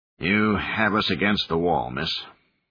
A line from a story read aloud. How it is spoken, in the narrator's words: he sighed